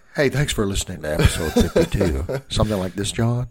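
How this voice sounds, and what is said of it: Radio announcer voice, NPR parody. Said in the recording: “my radio announcer voice ... You sound like that guy in that Parks and Rec episode. He's making fun of NPR.”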